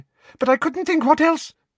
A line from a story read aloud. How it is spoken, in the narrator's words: he said anxiously